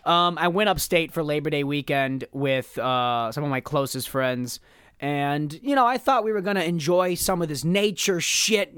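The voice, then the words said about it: Hoarse, worn-out voice. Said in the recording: “my voice is completely shot. Why is my voice shot? Well, I got belligerently drunk for 3 days straight ... every single time I'm trying to do a voice, it's like falling apart.”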